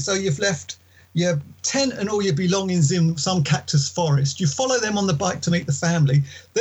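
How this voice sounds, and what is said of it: English accent. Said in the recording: “you've got an English accent”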